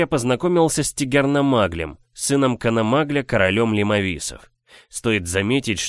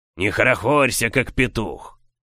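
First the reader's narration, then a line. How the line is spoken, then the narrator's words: Growled. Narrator (Russian): прорычал он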